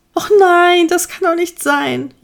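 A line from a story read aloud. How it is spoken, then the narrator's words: Whining lament. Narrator (German): jammerte Igor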